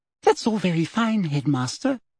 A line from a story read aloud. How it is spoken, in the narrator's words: she said, smiling sweetly